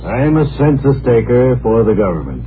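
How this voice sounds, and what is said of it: Laconic, terse drawling delivery. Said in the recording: “Is that a laconic... accent? ... I'm being laconic.”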